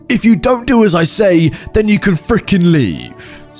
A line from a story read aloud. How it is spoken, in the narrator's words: him screaming in my face